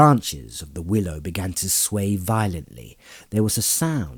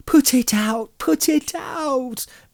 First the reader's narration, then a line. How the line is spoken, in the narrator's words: begged Merry